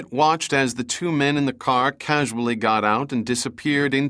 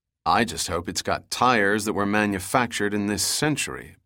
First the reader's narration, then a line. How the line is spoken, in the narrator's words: Pitt muttered